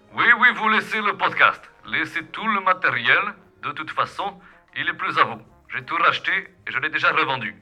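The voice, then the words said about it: Put-on Peruvian accent. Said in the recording (French): “Il a l'air bizarre avec son accent péruvien”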